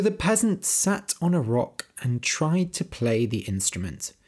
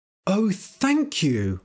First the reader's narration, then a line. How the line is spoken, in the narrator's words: cried